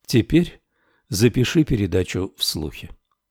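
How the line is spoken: Quiet. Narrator (Russian): сказал тихо

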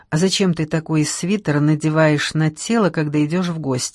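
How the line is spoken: Plain. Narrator (Russian): спросила Гудь

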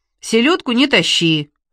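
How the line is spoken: Displeased voice. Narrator (Russian): недовольным голосом произнес Иван Никифорович

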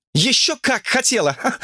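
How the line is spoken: Laughing girl. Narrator (Russian): рассмеялась девушка

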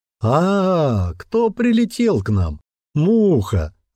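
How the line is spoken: Loud laughter. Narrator (Russian): захохотал Эндер

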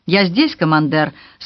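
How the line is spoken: Plain. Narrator (Russian): сказал генерал Хиллиард

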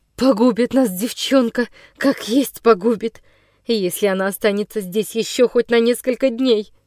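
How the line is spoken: Loud, desperate whisper. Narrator (Russian): Громко в забывчивости отчаяния прошептала Вихрова

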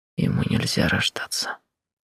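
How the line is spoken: Hoarse breaking whisper. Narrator (Russian): шепчу хрипло, срывающимся голосом

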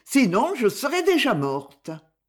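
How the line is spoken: Exclaimed. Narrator (French): s'exclama José

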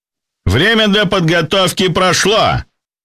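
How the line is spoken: Shouted, host. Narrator (Russian): прокричал ведущий

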